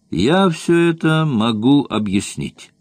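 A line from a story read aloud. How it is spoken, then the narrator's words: Loud and calm. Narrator (Russian): сказал громко, спокойно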